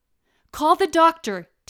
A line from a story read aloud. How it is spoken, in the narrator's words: shouted to the hallway